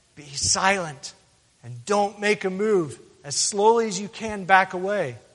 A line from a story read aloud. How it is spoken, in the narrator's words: she whispered to her friend